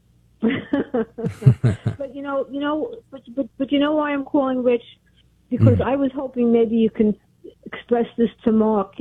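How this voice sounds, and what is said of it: Brooklyn accent. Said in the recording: “It sounds like you're from Brooklyn.”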